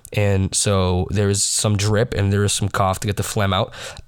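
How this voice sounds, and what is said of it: Slightly raspy, cold-affected voice. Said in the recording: “why I sound a little raspy,... I did come down with a bit of a cold”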